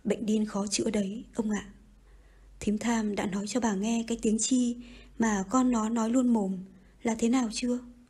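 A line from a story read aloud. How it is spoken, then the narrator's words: Sighing. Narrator (Vietnamese): Bà Phủ thở dài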